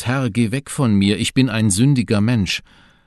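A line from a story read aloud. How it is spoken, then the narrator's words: Exclaiming. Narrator (German): Petrus rief zwar aus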